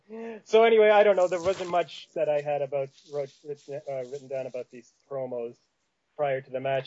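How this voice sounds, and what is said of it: Canadian prairie accent. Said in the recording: “If you've seen the movie Fargo, that's how people in Saskatchewan and Manitoba talk. And I was born in Saskatchewan ... I lived in Winnipeg ... I probably sound like Roddy Piper ... You do sound like Roddy Piper and Buddy Rose ... authentic accent”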